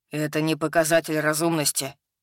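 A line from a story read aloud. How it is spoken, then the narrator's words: Grumbling. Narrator (Russian): пробурчал Хак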